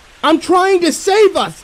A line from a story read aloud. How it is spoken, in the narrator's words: screech into his face